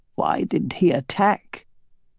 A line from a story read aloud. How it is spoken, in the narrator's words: asked Elva in a small, fearful voice